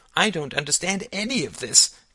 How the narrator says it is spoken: cried Alice

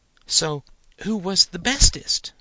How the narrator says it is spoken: Alder sighed

